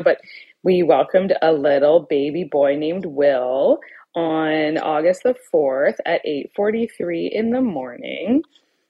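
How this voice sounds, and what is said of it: Baby-talk voice. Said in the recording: “this is my baby voice that I randomly just transfer into now without even realizing it”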